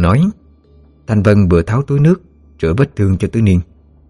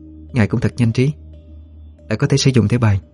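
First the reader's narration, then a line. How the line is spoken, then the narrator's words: Soft female voice. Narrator (Vietnamese): Cô nhỏ giọng nói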